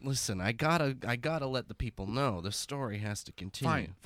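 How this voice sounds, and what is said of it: Usual voice. Nothing is said of it.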